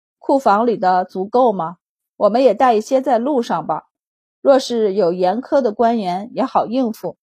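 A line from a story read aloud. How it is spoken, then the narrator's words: Sighing question. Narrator (Chinese): 白老爷叹气问道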